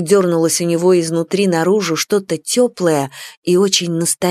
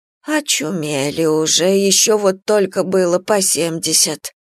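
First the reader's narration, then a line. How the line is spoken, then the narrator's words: Old woman grumbling. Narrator (Russian): ворчала косматая старуха в зеленом пальто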